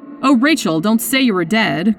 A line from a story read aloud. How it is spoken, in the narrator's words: cried Annie